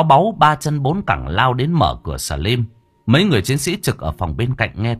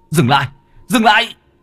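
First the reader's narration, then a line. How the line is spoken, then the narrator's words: Shriek. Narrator (Vietnamese): Báu rú lên một tiếng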